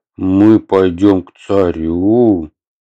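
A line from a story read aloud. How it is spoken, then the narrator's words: Drawling. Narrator (Russian): протянул Атхи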